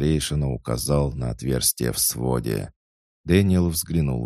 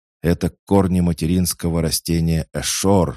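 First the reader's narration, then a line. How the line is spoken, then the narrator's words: Exclaiming. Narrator (Russian): воскликнул Фархад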